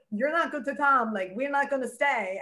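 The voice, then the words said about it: Imitates another person's accent. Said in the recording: “with her accent”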